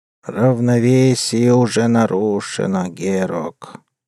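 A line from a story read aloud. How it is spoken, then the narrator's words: Creaky voice from grave. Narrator (Russian): скрипучим голосом, отозвался из могилы вампир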